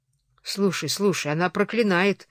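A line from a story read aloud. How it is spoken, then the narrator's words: Mutter. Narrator (Russian): бормотал Джозеф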